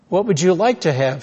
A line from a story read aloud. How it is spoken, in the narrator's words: she asked